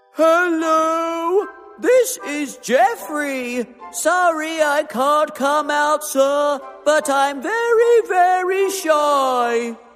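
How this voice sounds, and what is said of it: Silly put-on character voice. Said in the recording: “put on a silly voice”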